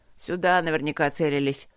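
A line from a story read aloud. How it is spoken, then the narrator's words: Grim soldier. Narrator (Russian): мрачно заключил боец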